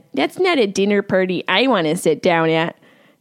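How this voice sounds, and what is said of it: Syracuse accent. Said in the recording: “there's my Syracuse accent.”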